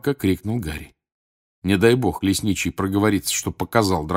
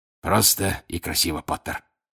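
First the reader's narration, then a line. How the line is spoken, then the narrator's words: Hoarse rasp. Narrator (Russian): прохрипел он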